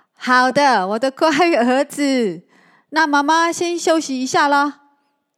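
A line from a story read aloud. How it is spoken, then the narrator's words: Gratified, smiling. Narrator (Chinese): 大姑姑一脸欣慰，她微笑的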